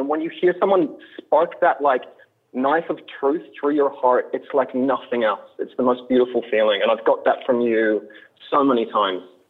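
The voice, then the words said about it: Australian accent. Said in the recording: “your Australian accent ... the Australian accent”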